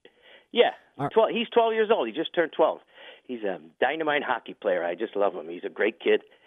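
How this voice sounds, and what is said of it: American regional accent, New York-like. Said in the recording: “with your accent? ... I thought you were a New Yorker”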